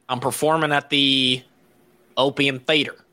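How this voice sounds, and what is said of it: Bad Southern-accented Theo impression. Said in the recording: “terrible Theo impersonation ... I only have one Southern accent”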